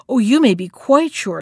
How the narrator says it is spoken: laughed the hare

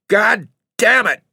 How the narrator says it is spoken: he yelled savagely

